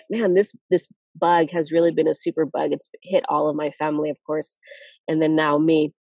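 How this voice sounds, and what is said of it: Slightly nasal, congested voice. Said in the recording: “I have been sick these past 2 weeks, so if I sound a little nasal,”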